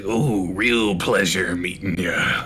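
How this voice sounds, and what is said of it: Imitates another person's voice. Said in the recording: “the greater the Macho Man accent came out”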